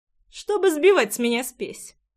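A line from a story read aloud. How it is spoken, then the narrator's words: Snorting. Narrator (Russian): хмыкнул Джексон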